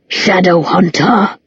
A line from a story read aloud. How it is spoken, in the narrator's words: snarled